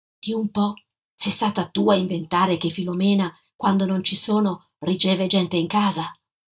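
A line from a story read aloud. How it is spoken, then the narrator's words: Whisper. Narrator (Italian): le sussurrai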